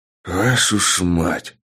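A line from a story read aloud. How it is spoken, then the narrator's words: Breathless exclamation. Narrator (Russian): выдохнул я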